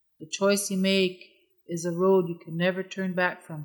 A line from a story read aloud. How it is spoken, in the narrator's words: said the voice